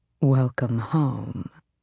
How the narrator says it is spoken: Aerobin purred

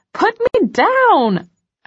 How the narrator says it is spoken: I squeal

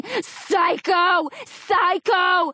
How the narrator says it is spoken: everyone's screaming out

